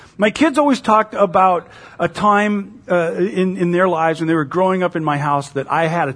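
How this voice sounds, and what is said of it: Usual voice. Nothing is said of it.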